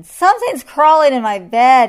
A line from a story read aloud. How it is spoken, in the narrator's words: he yelled